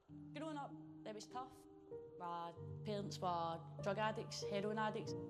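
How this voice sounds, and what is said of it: Strong Glaswegian accent. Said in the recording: “She's got a strong Glaswegian accent, so I think they've put some subtitles on for us”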